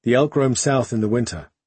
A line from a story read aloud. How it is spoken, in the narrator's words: he replied